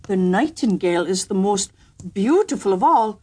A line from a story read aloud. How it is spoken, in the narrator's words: he exclaimed